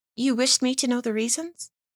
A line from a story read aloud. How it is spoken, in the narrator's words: said Dorothea, timidly